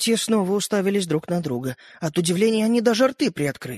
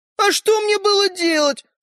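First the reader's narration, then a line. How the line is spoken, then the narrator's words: Tiny boy exclaiming. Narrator (Russian): воскликнул мальчик с пальчик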